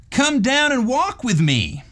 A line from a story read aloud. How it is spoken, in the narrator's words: cried the young fellow